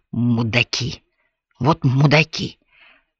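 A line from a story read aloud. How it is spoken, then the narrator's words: Hoarse wheeze. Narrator (Russian): прохрипел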